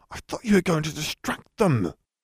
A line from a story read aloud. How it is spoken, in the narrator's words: Hermione hissed